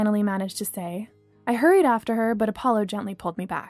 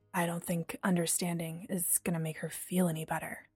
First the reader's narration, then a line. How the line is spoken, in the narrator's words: said quietly